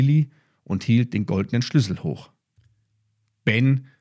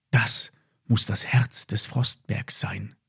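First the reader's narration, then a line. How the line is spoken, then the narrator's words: Whispered. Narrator (German): flüsterte Emma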